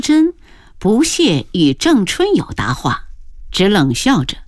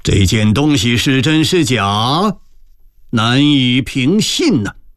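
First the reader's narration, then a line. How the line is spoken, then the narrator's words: Vicious laugh. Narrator (Chinese): 恶狠狠地一笑说道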